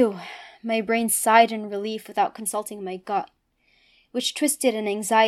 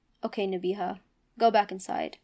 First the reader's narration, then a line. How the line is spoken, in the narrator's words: She looked at me sadly and said